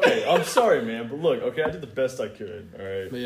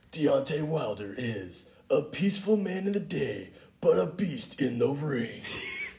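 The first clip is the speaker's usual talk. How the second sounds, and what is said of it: Movie trailer announcer voice. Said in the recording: “you got my movie announcer voice”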